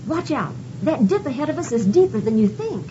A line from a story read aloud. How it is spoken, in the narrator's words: I just blurted out